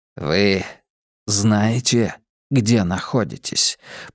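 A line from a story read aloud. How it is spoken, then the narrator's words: Whispered. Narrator (Russian): прошептал капитан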